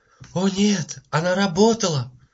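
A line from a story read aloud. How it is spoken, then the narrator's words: Exclaiming. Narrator (Russian): воскликнула мисс Таррен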